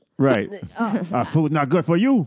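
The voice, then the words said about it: Put-on Asian accent. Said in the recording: “Why are you doing Asian accent for?”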